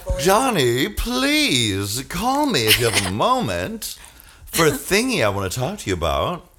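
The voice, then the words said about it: Imitates another person's voice. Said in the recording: “I hope that's not an impersonation... That is exactly.”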